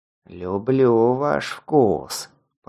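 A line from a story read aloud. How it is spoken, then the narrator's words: Growling. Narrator (Russian): прорычал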